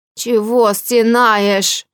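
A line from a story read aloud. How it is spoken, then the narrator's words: Creaky voice. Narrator (Russian): проскрипело справа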